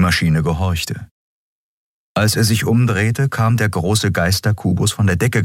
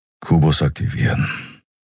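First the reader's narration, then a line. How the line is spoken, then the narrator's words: Said quietly. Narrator (German): sagte er leise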